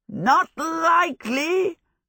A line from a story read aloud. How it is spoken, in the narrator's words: Hal yelled